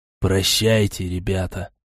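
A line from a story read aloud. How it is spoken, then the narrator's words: Faint dying whisper. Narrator (Russian): прошептал Олег, прежде чем сознание его покинуло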